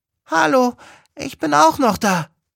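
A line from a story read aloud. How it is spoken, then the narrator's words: Squeaking. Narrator (German): piepst es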